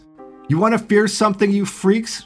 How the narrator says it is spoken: She shouted out the door

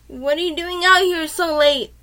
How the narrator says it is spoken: one of the guys screamed out and asked

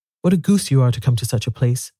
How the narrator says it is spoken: said Barney

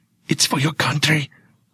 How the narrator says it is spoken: I whisper

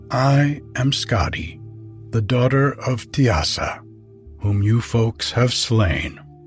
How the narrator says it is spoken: answered she

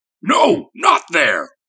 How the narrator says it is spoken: bellowed the thing

